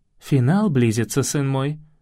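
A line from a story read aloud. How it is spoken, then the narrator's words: Plain. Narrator (Russian): ответила я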